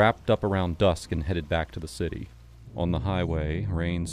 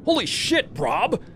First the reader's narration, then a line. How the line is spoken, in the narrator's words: Kevin yelled